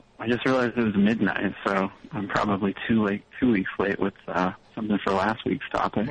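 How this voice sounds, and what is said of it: Slightly out of breath. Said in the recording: “You're a little out of breath.”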